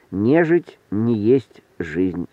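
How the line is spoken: Plain. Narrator (Russian): сказал Эдик

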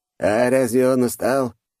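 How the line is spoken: Scoffing snort. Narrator (Russian): хмыкнул распорядитель

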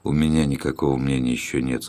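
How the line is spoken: Plain. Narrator (Russian): сказал Румата

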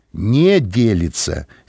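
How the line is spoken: Angry correction. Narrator (Russian): сердито поправила

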